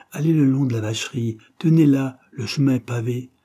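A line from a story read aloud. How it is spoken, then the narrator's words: Man shouting encouragement. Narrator (French): s'écria-t-il en remarquant l'indécision de l'avoué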